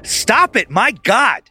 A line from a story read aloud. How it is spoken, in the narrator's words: Angie yelled at herself